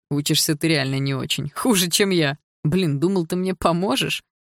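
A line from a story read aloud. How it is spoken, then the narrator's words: Laughing young man. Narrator (Russian): сказал сквозь смех парень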